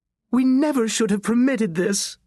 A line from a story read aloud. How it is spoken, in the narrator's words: his mother moaned